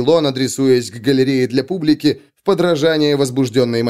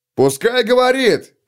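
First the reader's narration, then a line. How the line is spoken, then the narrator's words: Shouted. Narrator (Russian): крикнул кто-то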